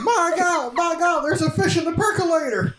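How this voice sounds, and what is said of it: Jim Ross impression. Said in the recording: “do an impression of Jim Ross ... in a Jim Ross voice”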